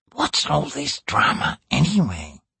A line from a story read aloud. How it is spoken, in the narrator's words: he asked in a whisper